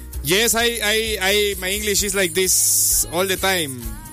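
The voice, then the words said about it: English with strong Spanish accent. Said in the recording (Spanish): “Yo lo hablo así como lo oyen, así con acento ... Como Sofía Vergara”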